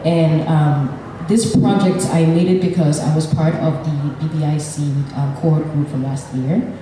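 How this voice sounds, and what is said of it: Nigerian English accent. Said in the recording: “I was born and raised in Nigeria, so I have a Nigerian accent, which I'm very proud of.”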